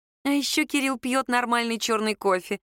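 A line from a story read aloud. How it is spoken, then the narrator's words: Snide, smiling tone. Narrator (Russian): ехидно улыбнулась Саша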